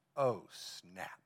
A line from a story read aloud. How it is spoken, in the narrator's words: under his breath, I bet he said